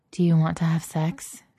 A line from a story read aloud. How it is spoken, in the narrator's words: Vivian murmured into Elle's ear